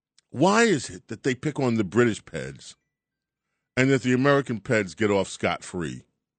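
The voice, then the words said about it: Put-on British accent. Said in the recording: “I'm using the British accent anyway”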